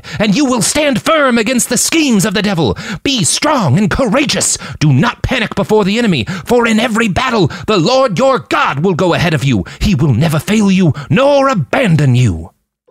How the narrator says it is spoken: he cried

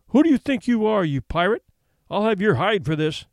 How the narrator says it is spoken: Sloper yelled at him

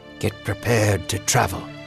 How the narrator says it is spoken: whispered

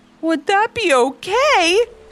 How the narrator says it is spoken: Ivy asked with a giggle

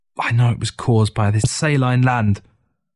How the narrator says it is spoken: Through gritted teeth, she muttered

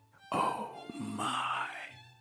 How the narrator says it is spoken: softly breathed

